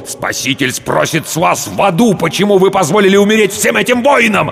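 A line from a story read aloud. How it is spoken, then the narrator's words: Impatient bark. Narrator (Russian): рявкнул потерявший терпение Рауль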